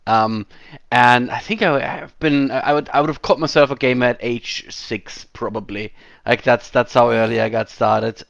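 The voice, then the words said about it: Slight German accent. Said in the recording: “As you can hear, this is a bit of a German accent going on here. I'm not doing a Bond villain impression. This is what I sound like.”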